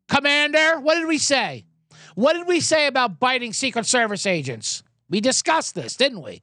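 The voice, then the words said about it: Joe Biden impression. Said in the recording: “I'm not going to do a Biden impression”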